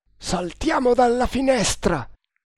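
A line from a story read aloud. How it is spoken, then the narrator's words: Shouting. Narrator (Italian): gridò Nagor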